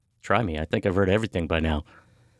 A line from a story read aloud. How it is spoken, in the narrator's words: laughed and replied